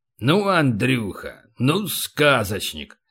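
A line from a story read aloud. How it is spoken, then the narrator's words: Grumbling. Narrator (Russian): проворчал Полубой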